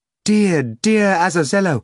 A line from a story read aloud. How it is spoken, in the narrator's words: Margarita exclaimed